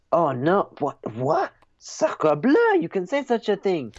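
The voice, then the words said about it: Put-on French accent. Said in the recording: “Your French accent”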